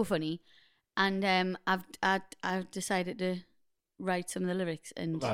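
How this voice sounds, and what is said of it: Usual voice. Nothing is said of it.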